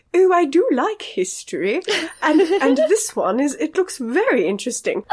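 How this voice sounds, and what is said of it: Put-on British accent. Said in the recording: “your accent ... The British”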